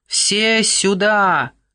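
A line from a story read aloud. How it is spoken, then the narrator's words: Unknown voice shouting. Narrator (Russian): прокричал чей-то голос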